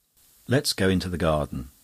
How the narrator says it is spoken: said Denis

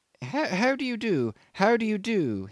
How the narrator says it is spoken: he piped amiably

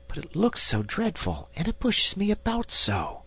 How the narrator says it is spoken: whispered Diamond

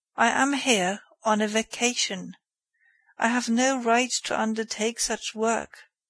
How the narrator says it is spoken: replied calmly

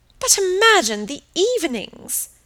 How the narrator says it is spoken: exclaimed her aunt

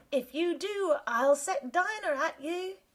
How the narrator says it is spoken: Alice called out as loud as she could

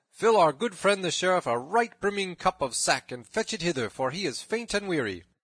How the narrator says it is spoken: cried Robin

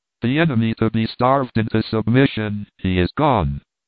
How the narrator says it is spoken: cried Martha

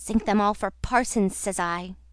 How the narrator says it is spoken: growled Moody

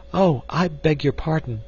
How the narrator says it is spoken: she exclaimed

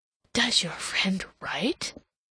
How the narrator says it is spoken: inquired in a very audible whisper

